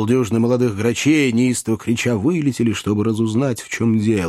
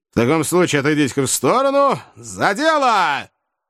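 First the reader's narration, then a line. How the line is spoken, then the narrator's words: Boy shouting. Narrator (Russian): Мальчишка закричал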